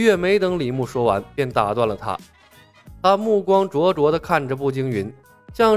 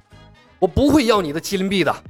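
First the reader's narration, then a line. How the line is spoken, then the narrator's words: Strained roar through teeth. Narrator (Chinese): 步惊云满头大汗，咬着牙吼道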